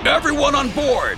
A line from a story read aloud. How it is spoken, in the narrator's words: Archer yelled